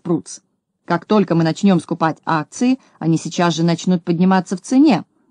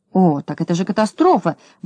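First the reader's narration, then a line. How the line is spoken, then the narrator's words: Exclaimed. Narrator (Russian): воскликнул господин Крабс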